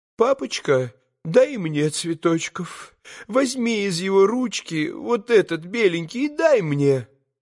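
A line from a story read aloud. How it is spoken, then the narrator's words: Sobbing, deranged mother pleading. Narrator (Russian): всхлипывая, попросила помешанная мамочка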